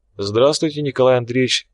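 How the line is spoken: Calm. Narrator (Russian): спокойно ответила та

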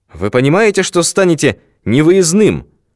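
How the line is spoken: Desperate shout. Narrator (Russian): В отчаянии крикнул друг народов

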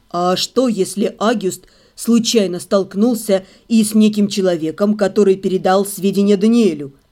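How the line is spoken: Insinuating whisper. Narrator (Russian): Вкрадчиво прошептал Себастьян

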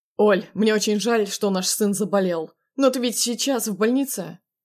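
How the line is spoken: Cold inquiring. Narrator (Russian): Холодно поинтересовался у меня он

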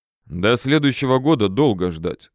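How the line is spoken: Calm. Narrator (Russian): спокойно проговорил я

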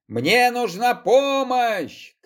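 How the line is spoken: Shouting. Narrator (Russian): крикнул Егор

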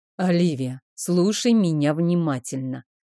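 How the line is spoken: Calm, composed voice. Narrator (Russian): вдруг заговорил Рик спокойным голосом, каким решал все проблемы

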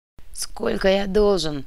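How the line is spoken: Asking again. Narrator (Russian): переспросил Ктулху

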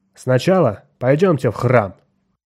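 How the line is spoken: Loud and firm. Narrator (Russian): Громко и твердо Бентон сказал

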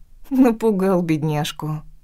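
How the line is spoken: Laughing woman. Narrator (Russian): рассмеялась я

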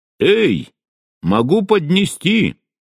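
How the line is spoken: Calling out after. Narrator (Russian): крикнула мне вслед

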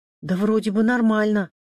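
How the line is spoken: Frightened. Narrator (Russian): испуганно ответила Маша

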